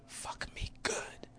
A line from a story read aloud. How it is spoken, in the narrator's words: whisper